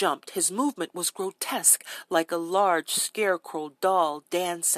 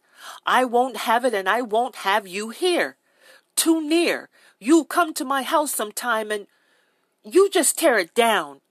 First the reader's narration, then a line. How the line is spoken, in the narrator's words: screamed